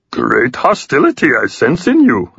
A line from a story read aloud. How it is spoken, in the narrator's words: I said in a muppety voice